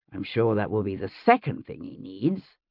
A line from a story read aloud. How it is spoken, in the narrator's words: William muttered